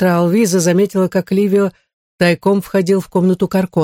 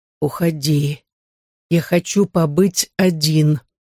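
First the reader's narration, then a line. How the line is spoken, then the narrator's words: Weak young rasp. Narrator (Russian): Юный призрак собрав последние силы, прохрипел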